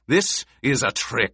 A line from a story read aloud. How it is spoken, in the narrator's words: Gurney snarled